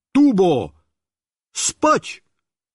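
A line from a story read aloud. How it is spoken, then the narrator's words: Shout. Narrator (Russian): Я крикнул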